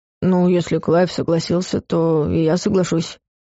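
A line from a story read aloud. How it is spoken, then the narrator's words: Grumbling. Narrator (Russian): буркнул Хельм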